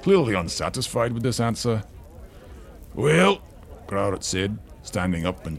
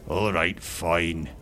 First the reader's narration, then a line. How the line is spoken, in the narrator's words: he grumbled